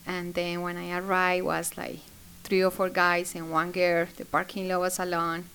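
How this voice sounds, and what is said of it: Non-native English accent. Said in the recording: “I wasn't sure that they're going to understand my English because of my accent.”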